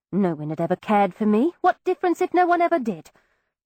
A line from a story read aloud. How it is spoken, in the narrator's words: I fear I spoke bitterly